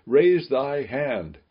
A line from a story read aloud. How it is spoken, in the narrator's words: the people shouting to the priest